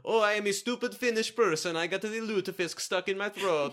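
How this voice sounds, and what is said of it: Crude put-on Italian-sounding accent. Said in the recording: “How come you still sound Italian? ... I don't know what a Finnish accent is ... crude impressions”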